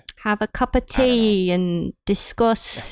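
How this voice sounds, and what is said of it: Put-on British accent. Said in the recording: “I got a little bit of British in there.”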